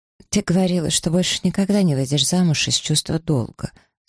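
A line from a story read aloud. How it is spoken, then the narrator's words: Sleepy. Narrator (Russian): сонно произнесла Маргарет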